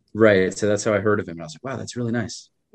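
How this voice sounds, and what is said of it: New York accent. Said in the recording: “Are you from Long Island? ... You hear like an accent? ... you have the same accent ... ah, New York”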